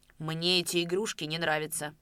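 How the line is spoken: Rude, breathless with anger. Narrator (Russian): грубо сказал Давыдов, задыхаясь от гнева

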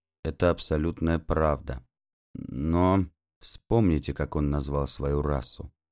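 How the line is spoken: Psychologist speaking quietly. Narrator (Russian): тихо произнес психолог

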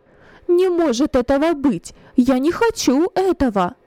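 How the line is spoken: Passionate exclamation. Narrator (Russian): Пылка воскликнула Нехушта

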